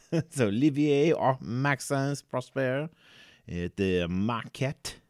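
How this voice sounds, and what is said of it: Bad put-on French accent. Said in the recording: “That was objectively awful of me. But either way, it was just my terrible French accent.”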